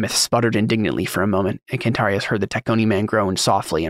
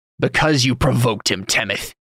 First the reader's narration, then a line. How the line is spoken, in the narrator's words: Cantarius barked